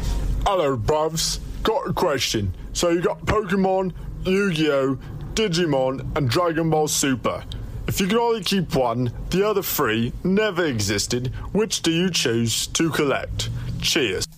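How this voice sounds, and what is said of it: Put-on regional accent, well done. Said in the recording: “What an accent there ... that is not our friend ... actual voice ... That was actually really good. That was him obviously doing some sort of accent from whatever region ... He doesn't sound like that at all.”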